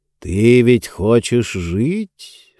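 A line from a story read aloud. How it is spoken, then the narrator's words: Ingratiating, insinuating. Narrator (Russian): вкрадчиво произнес он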